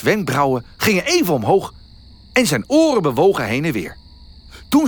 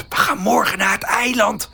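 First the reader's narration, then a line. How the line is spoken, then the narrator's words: Whispering. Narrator (Dutch): fluisterde Melle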